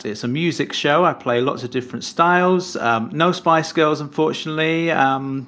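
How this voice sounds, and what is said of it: British accent. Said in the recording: “from your accent, I would guess that your podcast is about, I don't know, tea, fish and chips, the royal baby, maybe the Spice Girls?”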